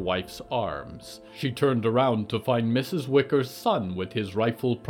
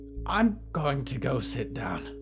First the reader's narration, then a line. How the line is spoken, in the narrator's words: she whispered